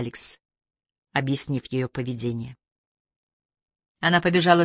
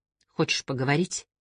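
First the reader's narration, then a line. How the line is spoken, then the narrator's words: Plain. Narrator (Russian): спросила Алекс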